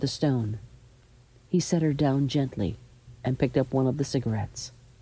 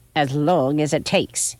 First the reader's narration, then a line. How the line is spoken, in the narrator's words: she snapped back